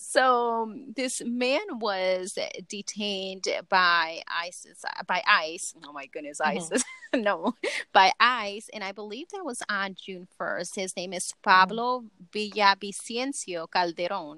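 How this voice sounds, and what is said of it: Speaks with a non-native accent. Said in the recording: “That is her accent. ... That is my accent. ... You like that accent, huh?”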